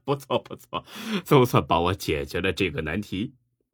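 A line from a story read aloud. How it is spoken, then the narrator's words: Exhausted, laughing. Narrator (Chinese): 感觉到了前所未有的疲惫和虚脱，楚河笑着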